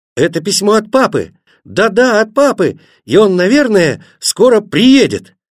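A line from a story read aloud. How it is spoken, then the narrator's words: Shouting together. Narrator (Russian): они закричали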